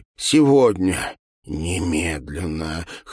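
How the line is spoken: Hoarse whisper. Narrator (Russian): хрипло шептала она

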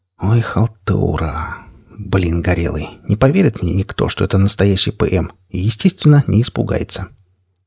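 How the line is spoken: Grimacing whisper. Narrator (Russian): скривившись, прошептал

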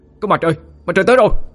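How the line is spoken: Crowd shouting. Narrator (Vietnamese): tiếng hét từ đoàn người

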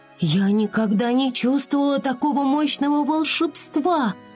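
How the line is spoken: Astonished exclamation. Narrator (Russian): воскликнула пораженная Флора

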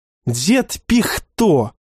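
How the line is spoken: Irritated snapping. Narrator (Russian): огрызнулся Вячеслав

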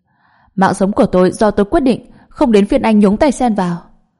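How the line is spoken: Angry shouting. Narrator (Vietnamese): An Hạ tức giận quát lên

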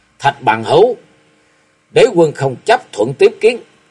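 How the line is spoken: Angry shout. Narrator (Vietnamese): mặt đầy vẻ giận dữ quát

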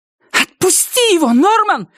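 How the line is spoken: Shouting. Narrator (Russian): закричала она

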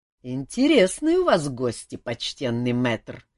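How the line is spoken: Sarcastic insolent remark. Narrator (Russian): язвительно заметил нахал без особого почтения

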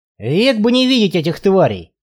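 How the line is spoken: Muttering. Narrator (Russian): пробурчал Барри

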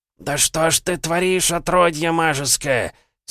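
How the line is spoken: Spirit roaring. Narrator (Russian): Снова взревел дух

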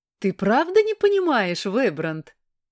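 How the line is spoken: Hyena-like laughter. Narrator (Russian): засмеялась смехом гиены Астера

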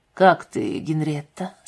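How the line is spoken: Calmer question. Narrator (Russian): спросил Уэстон уже более спокойным голосом

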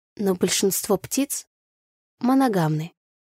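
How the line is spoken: Uncertain. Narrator (Russian): начала неуверенно я

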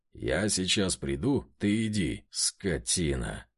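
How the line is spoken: Hissing through teeth. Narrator (Russian): шипит сквозь зубы Влад

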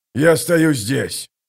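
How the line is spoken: Growl. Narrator (Russian): прорычал командир

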